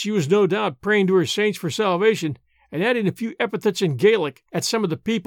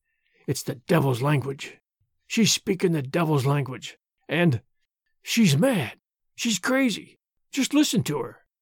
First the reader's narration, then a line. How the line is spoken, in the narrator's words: She muttered constantly